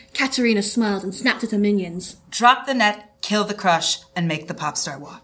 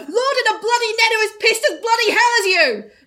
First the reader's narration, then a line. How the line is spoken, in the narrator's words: Lord screamed from the height of the net